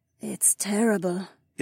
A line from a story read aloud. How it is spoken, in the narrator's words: Isabella murmured